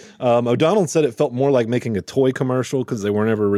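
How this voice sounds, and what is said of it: Usual voice. Nothing is said of it.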